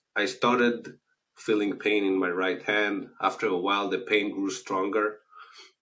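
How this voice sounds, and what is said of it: Israeli accent. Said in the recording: “As you can hear from the accent, I'm originally from Israel.”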